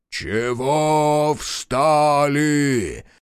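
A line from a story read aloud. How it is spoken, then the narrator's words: Booming wood spirit's bass. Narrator (Russian): забасил леший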